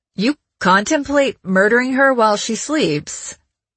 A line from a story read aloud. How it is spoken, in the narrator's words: Colin said in a weird tone